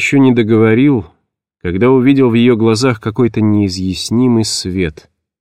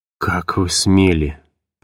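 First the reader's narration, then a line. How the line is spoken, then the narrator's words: Muttered. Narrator (Russian): пробормотал я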